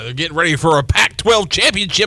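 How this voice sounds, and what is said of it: Sports announcer voice. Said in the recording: “That sounds like your announcer voice.”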